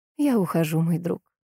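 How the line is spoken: Sad, smiling. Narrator (Russian): грустно улыбаясь, сказала Флоренция

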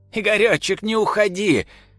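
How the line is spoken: Old woman crying out asleep. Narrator (Russian): Во сне кричала старушка

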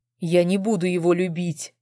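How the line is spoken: Crushed hoarse rasp. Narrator (Russian): убитым тоном прохрипел мужчина

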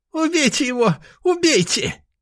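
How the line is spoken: Thin squeaky voice. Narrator (Russian): пропищал тоненьким голоском ректор

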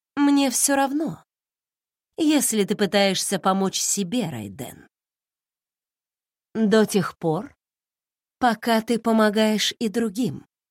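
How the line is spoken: Soft. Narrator (Russian): мягко сказала Марико

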